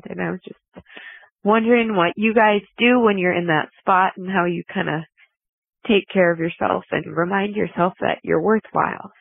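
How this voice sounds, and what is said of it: Emotional, near-tearful voice. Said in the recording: “I'm kind of crying in my car ... sorry to get a little emotional there”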